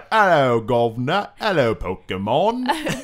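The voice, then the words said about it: Exaggerated bad cockney British accent. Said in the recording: “bad British, like, Dick Van Dyke, Mary Poppins accent”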